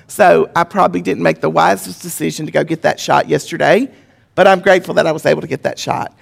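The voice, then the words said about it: Congested, impaired voice. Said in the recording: “apologize for my voice ... I do, however, have postnasal drip”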